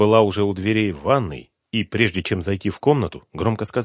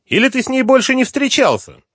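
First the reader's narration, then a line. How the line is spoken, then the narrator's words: Smirking shout. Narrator (Russian): Он усмехнулся и крикнул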